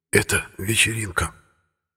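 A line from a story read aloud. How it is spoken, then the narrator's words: Booming whisper. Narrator (Russian): громовым шепотом ответил Сергей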